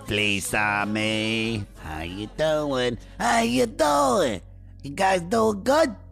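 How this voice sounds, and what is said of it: Put-on Italian New York accent. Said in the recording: “I'm doing an Italian New York accent”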